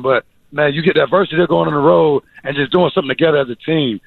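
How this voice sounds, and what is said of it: Hoarse, strained voice. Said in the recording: “my voice is a little bit gone already. As you can tell, I was yelling a little bit tonight... So my voice is a little bit gone.”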